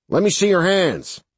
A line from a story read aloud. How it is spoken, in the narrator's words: Ted shouted